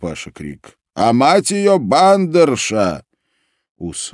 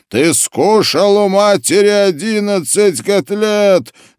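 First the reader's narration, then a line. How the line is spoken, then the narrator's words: Shouting. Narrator (Russian): закричал Мендель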